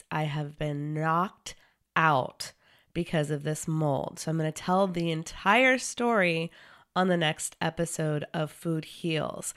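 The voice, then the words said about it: Sick, unwell-sounding voice. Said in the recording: “I got mold poisoning. You can probably hear it in my voice.”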